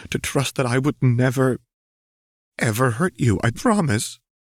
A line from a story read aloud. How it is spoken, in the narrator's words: Seraphine pleaded